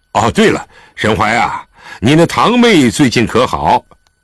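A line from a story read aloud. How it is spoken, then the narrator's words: Calling out. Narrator (Chinese): 狄仁杰又叫住了他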